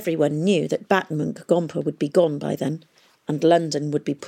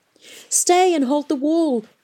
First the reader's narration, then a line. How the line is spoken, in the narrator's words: she begged